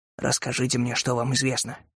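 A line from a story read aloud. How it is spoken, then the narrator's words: Whisper. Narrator (Russian): прошептал Кэллоуэй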